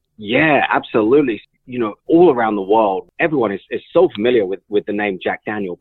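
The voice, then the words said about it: British English accent. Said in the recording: “with a British accent”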